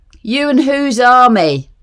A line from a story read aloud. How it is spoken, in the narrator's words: shouted above the wind, derisively